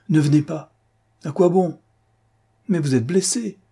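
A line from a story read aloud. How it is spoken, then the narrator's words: Exclaiming. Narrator (French): s'exclama-t-elle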